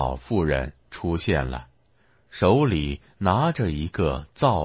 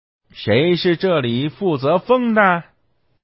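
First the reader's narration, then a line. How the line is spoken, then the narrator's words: Shouting. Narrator (Chinese): 他大喊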